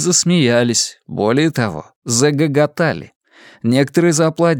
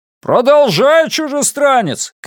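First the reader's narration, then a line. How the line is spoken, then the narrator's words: Shout. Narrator (Russian): крикнул кто-то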